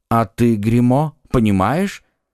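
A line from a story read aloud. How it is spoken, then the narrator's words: Plain. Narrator (Russian): спросил Арамис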